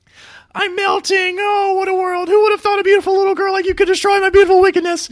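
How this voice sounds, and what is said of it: Fast falsetto Wicked Witch of the West impression. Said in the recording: “I'm going to try to do it in real time here ... she literally says it that fast ... my real falsetto Wicked Witch voice”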